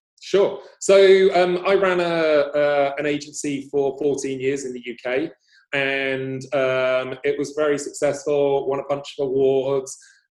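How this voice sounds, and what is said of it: English accent. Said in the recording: “You have a English accent, I noticed.”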